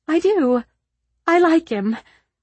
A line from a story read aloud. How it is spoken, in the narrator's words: Eliza exclaimed